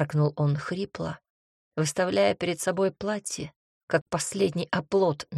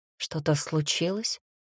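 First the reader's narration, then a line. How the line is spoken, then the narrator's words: Hushed, careful question. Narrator (Russian): тихо спросила она, словно боясь потревожить покой лилового озера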